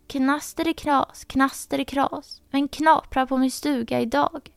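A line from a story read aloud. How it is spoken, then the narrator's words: Thin voice calling from inside. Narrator (Swedish): ropade en tunn röst inifrån stugan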